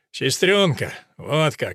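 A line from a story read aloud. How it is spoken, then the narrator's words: Displeased grumble. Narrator (Russian): недовольно проворчал Сим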